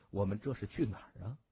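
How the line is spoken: Smiling question. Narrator (Chinese): 他含笑就问

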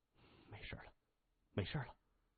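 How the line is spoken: Soft, soothing. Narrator (Chinese): 谢文东轻声说

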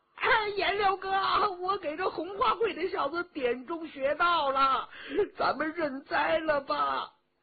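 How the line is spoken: Calling out. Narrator (Chinese): 佟兆和叫着

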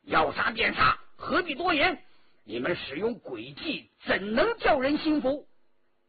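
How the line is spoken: Loud, defiant. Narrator (Chinese): 张召忠大声地说

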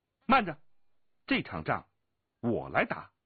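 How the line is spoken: Sudden, clear sweet female shout. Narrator (Chinese): 突然之间，只听得一个清丽的声音娇喝道

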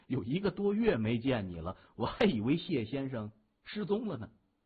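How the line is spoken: Surprised, laughing. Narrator (Chinese): 戴安妮十分意外，她笑着说

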